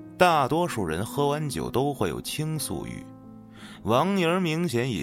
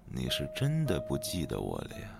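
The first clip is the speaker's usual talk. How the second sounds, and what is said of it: Very quiet, murmured line. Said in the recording (Chinese): “小声的嘀咕了一句 ... 他的声音很小，小到我几乎觉得自己听错了”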